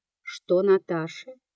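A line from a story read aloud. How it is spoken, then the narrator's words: Asked in an undertone. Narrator (Russian): спросила вполголоса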